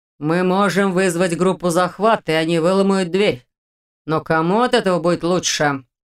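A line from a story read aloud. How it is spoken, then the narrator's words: Menacing. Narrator (Russian): Грозно добавил Дементьев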